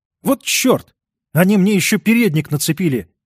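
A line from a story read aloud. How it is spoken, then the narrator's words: Exclaiming. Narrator (Russian): воскликнул он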